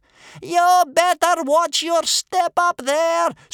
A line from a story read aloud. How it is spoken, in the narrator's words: screamed Bear Cub's grandmother, howling up at the ceiling like a wolf